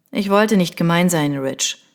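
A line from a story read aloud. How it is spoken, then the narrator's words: Plain. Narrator (German): sagte Lucien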